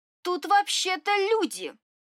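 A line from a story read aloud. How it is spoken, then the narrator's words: Indignant addition. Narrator (Russian): И столь же возмущенно добавила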